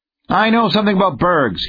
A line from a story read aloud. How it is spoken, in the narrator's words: snapped